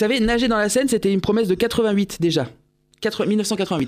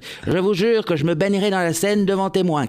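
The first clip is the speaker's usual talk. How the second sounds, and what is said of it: Imitates another person's voice, poorly. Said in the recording (French): “Ah, Chirac ... je suis tellement mauvais en imitation”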